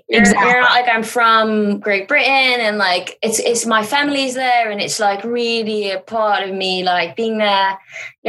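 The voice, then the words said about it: Put-on British accent. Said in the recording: “When you're doing the accent, it's so tempting now... British accents”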